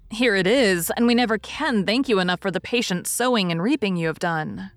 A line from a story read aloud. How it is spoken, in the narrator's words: cried Joe, with the loving impetuosity which she never could outgrow